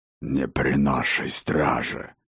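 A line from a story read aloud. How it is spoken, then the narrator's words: Gruff orcish bass growl. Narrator (Russian): Рыкнул грубоватый бас, судя по акценту, явно орочий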